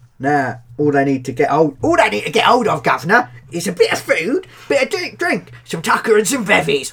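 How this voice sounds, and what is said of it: Put-on Cockney accent. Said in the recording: “If I'm going to be Cockney in every accent, I may as well be proper Cockney.”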